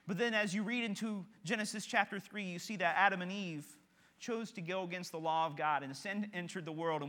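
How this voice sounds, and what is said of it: Kentucky Southern American accent. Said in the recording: “my accent ... I'm from Kentucky”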